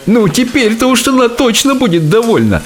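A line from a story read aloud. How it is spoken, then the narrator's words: Cook's loud laughter. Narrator (Russian): захохотал повар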